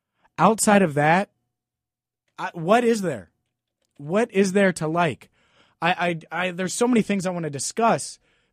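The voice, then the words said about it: Voice sounds a little off. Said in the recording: “That's why my voice sounds a little funny.”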